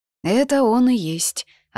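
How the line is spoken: Hoarse reply. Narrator (Russian): отозвалась сипло

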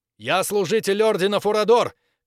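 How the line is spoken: Shouting as loud as possible. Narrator (Russian): как можно громче закричал Максимилиан

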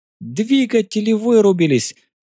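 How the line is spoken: Jubilant shout. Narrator (Russian): ликующе закричала Фаера

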